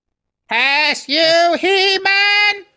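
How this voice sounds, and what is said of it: Poor Skeletor cartoon villain voice. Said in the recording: “The best I can do is Skeletor, and that's not even good.”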